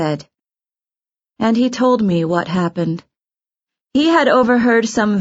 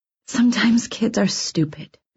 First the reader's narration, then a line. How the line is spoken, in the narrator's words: I said softly